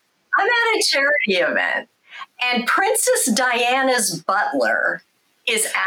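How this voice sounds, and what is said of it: Usual voice. Nothing is said of it.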